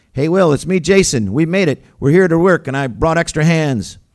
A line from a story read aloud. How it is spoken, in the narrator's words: shouted